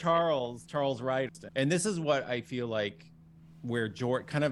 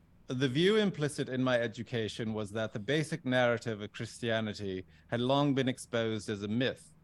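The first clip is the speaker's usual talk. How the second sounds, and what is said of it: Put-on British accent. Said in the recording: “I don't know if I should do a British accent or not ... You do a great British accent ... the British character accent”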